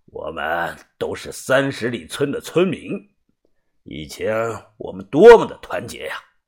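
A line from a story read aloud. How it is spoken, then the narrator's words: Heavy sigh, old man. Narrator (Chinese): 老人重重的叹了声气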